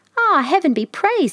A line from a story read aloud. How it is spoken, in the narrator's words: she cried